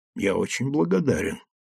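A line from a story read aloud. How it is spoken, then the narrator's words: Quiet. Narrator (Russian): тихо сказал Гирин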